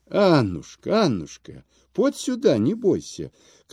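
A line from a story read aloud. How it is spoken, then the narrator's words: Old man's affectionate call. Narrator (Russian): кликнул старик ласково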